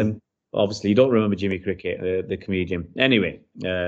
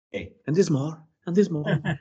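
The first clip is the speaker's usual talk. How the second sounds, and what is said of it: Imitates another person's voice. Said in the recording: “sorry for the accent there”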